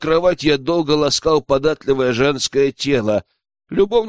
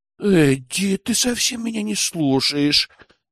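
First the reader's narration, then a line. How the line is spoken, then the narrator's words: Offended moan. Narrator (Russian): обиженно простонала Луиза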